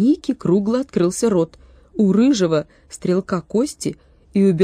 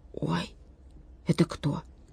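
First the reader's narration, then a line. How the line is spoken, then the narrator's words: Whisper. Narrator (Russian): Ника шепотом сказал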